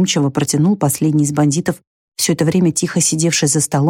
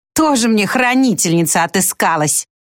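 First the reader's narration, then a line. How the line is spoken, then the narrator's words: Spiteful spitting woman. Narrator (Russian): злобно сплюнула женщина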